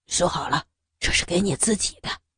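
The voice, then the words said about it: Quiet, hushed voice. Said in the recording (Chinese): “小声对他说”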